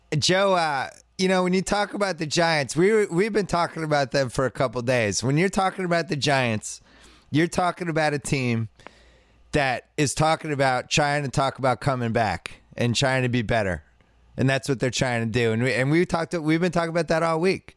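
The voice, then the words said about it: Imitates another person's voice. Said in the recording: “Let me do my Phil Simms. ... my Phil Simms impersonation”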